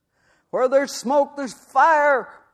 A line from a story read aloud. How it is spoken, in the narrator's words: bellowed Robert F